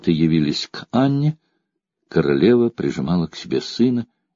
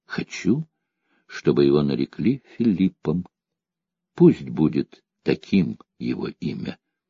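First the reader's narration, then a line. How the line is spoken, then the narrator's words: Happy, quiet. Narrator (Russian): Счастливая мать тихо сказала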